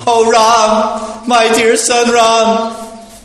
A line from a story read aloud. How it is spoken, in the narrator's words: Lamenting in grief for the death of her husband, the most chaste struck her body with her hands and cried loudly